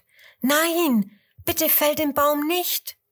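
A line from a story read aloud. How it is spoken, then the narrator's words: Calling out. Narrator (German): ruft sie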